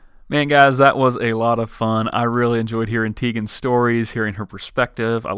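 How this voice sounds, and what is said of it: Usual voice. Nothing is said of it.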